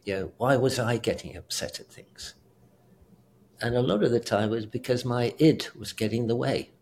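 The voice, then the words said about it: British accent. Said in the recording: “I'm British as well. Yeah. It's a wonderful accent. People think I'm really intelligent because I have this accent.”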